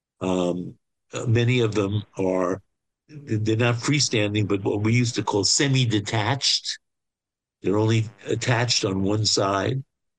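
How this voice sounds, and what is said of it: Brooklyn accent. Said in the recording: “Whatever Brooklyn accent I have, it's sort of my neighborhood accent.”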